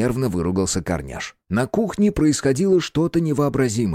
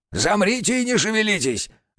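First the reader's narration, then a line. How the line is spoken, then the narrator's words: Creaky shout. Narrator (Russian): закричал скрипучим голосом на ребят Корняш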